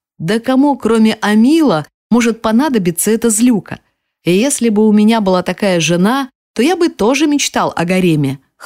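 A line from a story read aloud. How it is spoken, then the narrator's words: Chuckle. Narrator (Russian): хохотнул он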